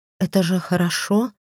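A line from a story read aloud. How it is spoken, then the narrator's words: Slightly trembling voice. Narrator (Russian): отчего-то подрагивающим голосом спросила я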